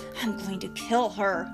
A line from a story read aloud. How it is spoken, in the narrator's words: mumbled